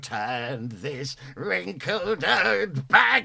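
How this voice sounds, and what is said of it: Crumbly old woman's voice. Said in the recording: “does the best impression of Mum, the ever living... he's all crumbly... this is nowhere near as good”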